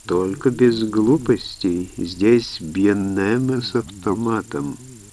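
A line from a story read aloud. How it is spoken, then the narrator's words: Melodic warning. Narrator (Russian): предупредил мулатка мелодичным голосом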